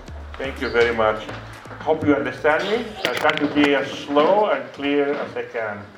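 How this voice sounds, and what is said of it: Greek accent. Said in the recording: “I have an accent ... I am from Greece”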